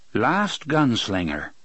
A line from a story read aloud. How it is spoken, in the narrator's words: Andrew said